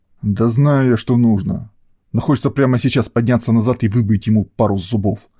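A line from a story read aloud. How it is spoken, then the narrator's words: Angry blurt. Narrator (Russian): зло выпалил олигарх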